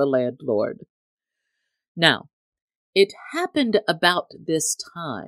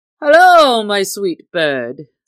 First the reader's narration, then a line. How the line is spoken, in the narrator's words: said he, laughing merrily